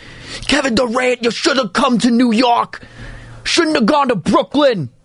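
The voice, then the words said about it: Poor put-on New York accent. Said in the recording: “That was a terrible New York accent”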